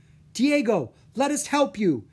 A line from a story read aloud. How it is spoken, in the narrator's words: Drake cried